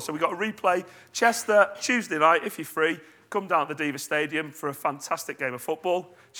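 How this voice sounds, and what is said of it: Croaky, strained voice. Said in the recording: “my voice is croaky today because I was screaming so much”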